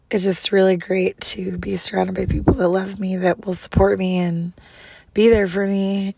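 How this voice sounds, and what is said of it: Hoarse, fading voice. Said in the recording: “losing my voice completely”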